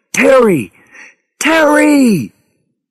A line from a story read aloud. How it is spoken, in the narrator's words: Harry screamed into his radio